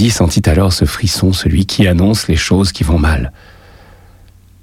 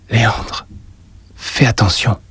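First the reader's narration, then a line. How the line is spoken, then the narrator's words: Murmured. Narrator (French): murmura-t-elle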